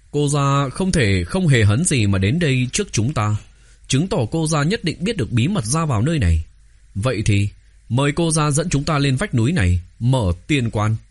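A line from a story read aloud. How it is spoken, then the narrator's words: Smiling. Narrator (Vietnamese): mỉm cười nói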